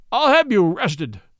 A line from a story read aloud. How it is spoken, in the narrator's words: he sobbed